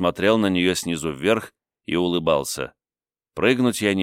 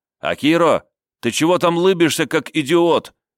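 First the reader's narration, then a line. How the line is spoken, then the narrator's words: Shouted from above. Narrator (Russian): крикнул сверху Кайташи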